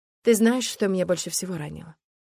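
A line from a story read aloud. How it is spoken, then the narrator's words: Plain question. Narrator (Russian): спросила я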